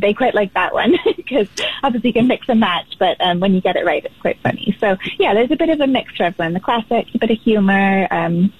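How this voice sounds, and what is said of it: Slight British accent, fast speech. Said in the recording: “you picked up some of that British accent, and you speak rather quickly”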